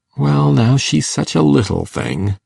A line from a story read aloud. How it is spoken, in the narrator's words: feebly reiterated Matthew